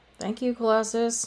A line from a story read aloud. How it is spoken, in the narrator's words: mumbled